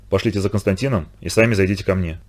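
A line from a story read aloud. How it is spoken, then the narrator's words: Quiet. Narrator (Russian): тихо сказал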